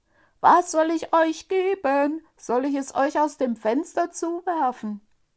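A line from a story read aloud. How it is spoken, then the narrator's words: Very loud shout. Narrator (German): rief er so laut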